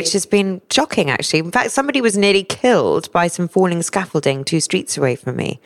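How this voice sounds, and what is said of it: Hoarse, husky voice. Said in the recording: “has a really exceptionally sexy voice this morning ... I've got a sore throat this morning ... Maybe I am a little hoarse.”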